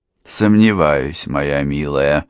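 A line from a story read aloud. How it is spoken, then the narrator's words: Gloomy remark. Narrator (Russian): мрачно заметила мисс Лавиния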